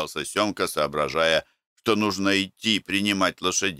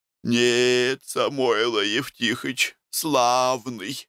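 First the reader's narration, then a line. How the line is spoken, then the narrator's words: Sleepy woman. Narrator (Russian): сонно проговорила домнушка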